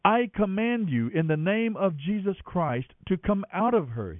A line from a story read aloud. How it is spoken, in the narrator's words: he said